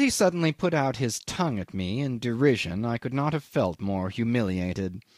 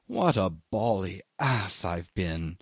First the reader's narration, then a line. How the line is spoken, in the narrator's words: said, very slow, in an awed tone